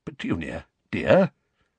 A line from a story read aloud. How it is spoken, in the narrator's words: said Uncle Vernon timidly